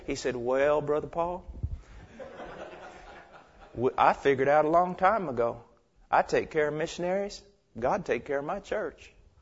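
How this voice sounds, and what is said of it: Put-on Georgian Southern accent. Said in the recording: “Did I sound like a Georgian? Sort of?”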